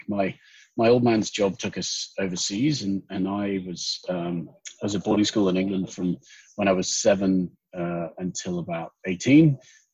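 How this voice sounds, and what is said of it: Clipped English accent. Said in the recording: “the clip Pommy accent”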